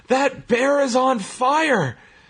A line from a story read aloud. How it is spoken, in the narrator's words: the announcer having to yell